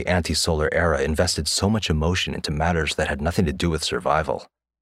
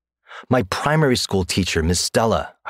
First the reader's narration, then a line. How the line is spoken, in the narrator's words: I replied impatiently